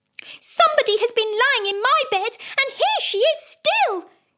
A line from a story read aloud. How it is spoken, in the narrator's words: said the little wee bear in his little wee voice